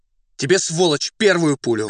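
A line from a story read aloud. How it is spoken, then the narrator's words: Shouting. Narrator (Russian): крикнул Фондорин татарину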